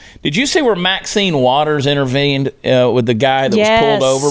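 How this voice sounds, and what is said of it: Usual voice. Nothing is said of it.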